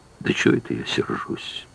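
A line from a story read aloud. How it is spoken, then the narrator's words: Dejected, sinking voice. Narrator (Russian): промолвил упавшим голосом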